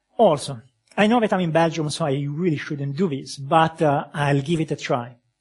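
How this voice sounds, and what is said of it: Very thick accent. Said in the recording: “my very thick accent”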